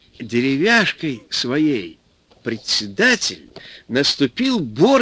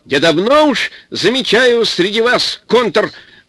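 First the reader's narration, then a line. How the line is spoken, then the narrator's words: Shouting. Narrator (Russian): как закричит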